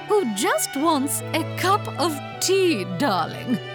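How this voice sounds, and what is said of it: Old lady character voice. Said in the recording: “I can play all sorts of characters. Like an old lady”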